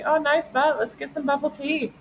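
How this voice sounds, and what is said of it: Attempted Canadian accent, sounds Irish-British. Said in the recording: “read them in a Canadian accent ... we kept coming out as Irish ... kind of like English. British. Or some a little bit of British, a little bit of Irish. It was kind of an unrecognizable accent, but it definitely wasn't Canadian”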